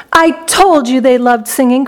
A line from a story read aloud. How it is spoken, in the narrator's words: cried Mr